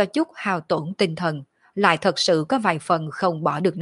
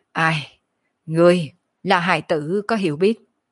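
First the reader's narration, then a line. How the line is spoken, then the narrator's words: Calm, leisurely sigh. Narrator (Vietnamese): Kiếp nạn thần hồn ung dung thở dài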